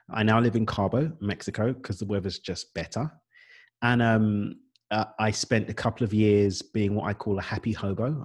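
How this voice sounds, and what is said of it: British East London accent. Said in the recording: “I've got an English accent. Unless you think it's Australian, it's not. It's British. I'm from East London, born and raised.”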